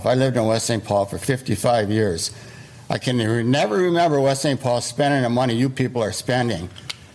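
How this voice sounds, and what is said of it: Midwestern American accent. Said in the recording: “Somewhere in the Midwest. You can tell by his accent. I think in Illinois”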